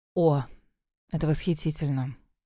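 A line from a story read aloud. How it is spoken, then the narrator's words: Mumbling. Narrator (Russian): бормотала Рита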